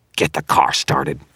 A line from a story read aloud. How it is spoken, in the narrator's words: Victor snarled